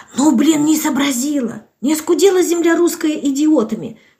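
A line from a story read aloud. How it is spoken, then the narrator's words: Woman's whispered reply. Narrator (Russian): шептала в ответ чудо-тетенька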